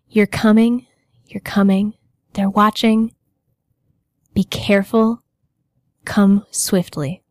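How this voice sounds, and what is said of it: Deep ominous character voice. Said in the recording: “you hear a deep voice, the same one that you've been hearing in your head before”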